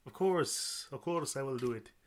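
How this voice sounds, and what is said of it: Poor put-on Russian accent. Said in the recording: “this is my terrible Russian accent”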